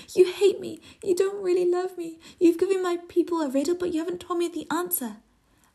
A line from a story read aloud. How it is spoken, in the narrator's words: Samson's wife sobbing